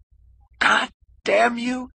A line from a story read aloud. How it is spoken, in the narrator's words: He screamed